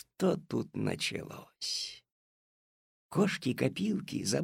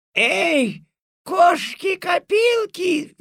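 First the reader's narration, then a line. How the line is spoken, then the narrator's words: Furious yell. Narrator (Russian): в ярости завопила госпожа Жадность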